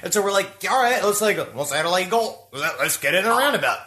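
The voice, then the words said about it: Put-on Australian accent. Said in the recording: “this Australian accent, this trip, that is the best Australian accent that I have ever heard”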